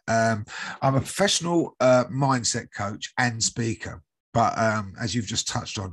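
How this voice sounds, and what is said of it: British accent. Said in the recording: “I'm from the UK, as you can probably guess by my accent.”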